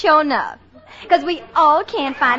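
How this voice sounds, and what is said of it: Southern American accent. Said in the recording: “a little old southern accent”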